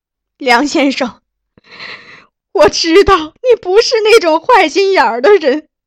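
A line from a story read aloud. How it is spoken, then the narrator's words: Tearful. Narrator (Chinese): 他哭了一会儿，又对我说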